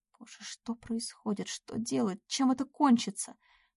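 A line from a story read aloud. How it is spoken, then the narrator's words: Inner anxious muttering. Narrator (Russian): бормотал кто-то у нее в голове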